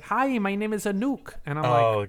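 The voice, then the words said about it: Put-on Icelandic-sounding accent. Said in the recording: “I know I just made her sound like she was from Iceland”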